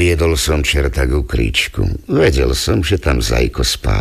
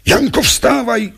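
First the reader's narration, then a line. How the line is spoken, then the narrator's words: Cried out. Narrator (Slovak): skríkol som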